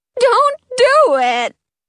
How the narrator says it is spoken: Prince Micah cries

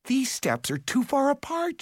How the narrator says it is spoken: she exclaimed

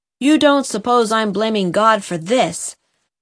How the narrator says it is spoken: said Jem sternly

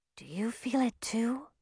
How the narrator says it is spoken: Millie whispered

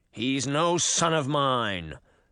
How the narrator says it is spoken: the king snarled

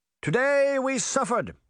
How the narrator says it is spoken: he shouted

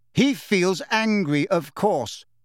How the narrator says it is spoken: said Hermione in a hard, clear voice

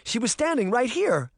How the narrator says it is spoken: Sabrina cried, struggling with her panic

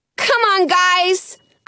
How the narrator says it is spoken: I shout

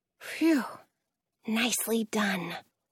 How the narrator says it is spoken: I whisper back

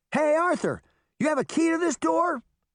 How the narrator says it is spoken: she shouted back to the king

